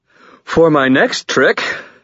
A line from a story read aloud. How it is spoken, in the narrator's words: I panted into the startled silence